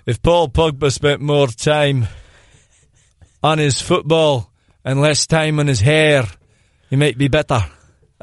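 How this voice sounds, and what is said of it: Put-on Scottish accent. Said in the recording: “That was a Scottish accent.”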